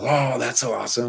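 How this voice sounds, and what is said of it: Imitates another person's voice. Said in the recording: “That's actually a good impression of him”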